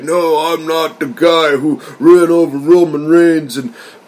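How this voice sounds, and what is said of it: Imitates another person, British-sounding accent. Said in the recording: “That's my best Eric Rowan impression. ... You're sounding kind of like a Brit there.”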